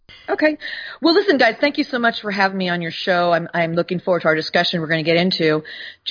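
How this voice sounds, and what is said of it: American accent. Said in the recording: “I live in the United States. I have a different accent than your probably listening audience does.”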